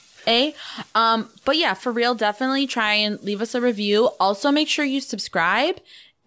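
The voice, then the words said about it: Accent like Rachael Ray and Fran Drescher. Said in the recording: “my voice is annoying. I know my accent's annoying ... You sound like Rachel Ray and Fran Drescher had a baby.”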